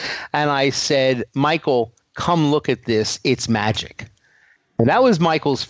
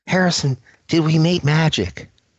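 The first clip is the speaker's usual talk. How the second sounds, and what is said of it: Imitates another person's voice. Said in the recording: “my bad Michael impersonation.”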